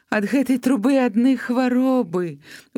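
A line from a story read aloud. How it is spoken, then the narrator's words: Sighing. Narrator (Belarusian): уздыхнула хахуля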